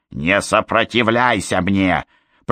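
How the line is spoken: Hissed through clenched teeth. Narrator (Russian): прошипела сквозь сжатые зубы

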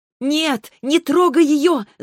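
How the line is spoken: Shouting in strange tongue. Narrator (Russian): закричала я на туманном языке

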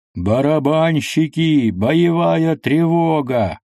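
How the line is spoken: Shouting in strange voice. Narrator (Russian): Алексей не своим голосом закричал

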